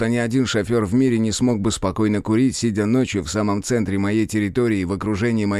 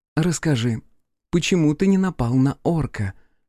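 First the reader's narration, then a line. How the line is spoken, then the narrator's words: Gentle request. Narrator (Russian): мягко попросила агент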